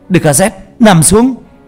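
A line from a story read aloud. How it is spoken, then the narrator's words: Man shouting. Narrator (Vietnamese): Ông la lên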